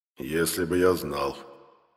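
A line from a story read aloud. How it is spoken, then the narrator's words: Muffled reply. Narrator (Russian): глухо отозвался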